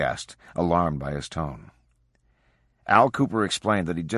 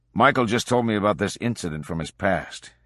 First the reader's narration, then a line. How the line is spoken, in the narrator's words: he said